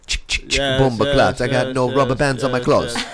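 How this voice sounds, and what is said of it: Put-on Jamaican accent. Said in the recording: “The Jamaican dude. ... He was Jamaican.”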